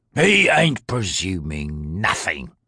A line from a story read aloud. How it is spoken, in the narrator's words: growled the thug